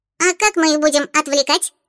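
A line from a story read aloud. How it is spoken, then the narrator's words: Curious squeak. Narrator (Russian): Заинтересованно пискнула Чата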